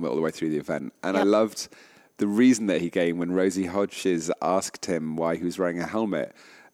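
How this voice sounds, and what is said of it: Usual voice. Nothing is said of it.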